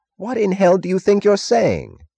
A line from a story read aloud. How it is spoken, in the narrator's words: Taggart cried furiously